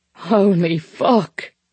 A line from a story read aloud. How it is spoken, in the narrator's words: he said, laughing